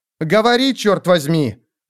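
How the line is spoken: Woman barking. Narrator (Russian): рявкнула она

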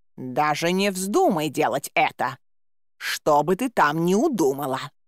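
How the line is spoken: Hissing male cat. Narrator (Russian): зашипел кот

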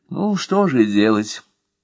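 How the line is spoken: Sighing snail. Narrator (Russian): вздохнула улитка

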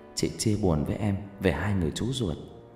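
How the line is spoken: Soft tender murmur. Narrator (Vietnamese): Hằng thủ thỉ

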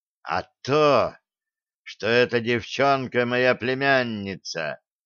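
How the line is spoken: Hiss. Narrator (Russian): прошипел генерал

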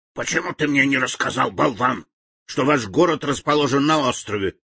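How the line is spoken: Angry witch. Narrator (Russian): злобно набросилась колдунья на Билана

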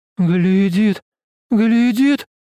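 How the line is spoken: Woman crying out. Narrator (Russian): Женщина, остановившаяся позади его, вскрикнула

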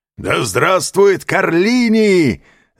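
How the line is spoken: Crowd of robbers shouting. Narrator (Russian): закричали разбойники

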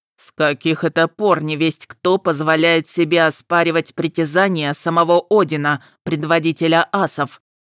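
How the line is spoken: Thunderous bass question. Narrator (Russian): спросил тот громовым басом

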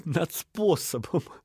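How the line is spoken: Laughing reply. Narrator (Russian): ответил сквозь смех Эдельхейт

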